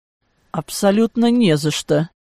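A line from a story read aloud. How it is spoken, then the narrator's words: Forced out. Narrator (Russian): Выдавил я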